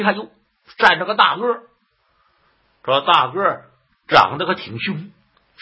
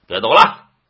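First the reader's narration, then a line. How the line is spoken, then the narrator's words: Loud commanding shout. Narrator (Chinese): 大胆鬼高声断喝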